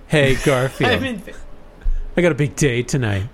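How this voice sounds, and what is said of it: Cartoon character voice. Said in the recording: “That's the new John voice”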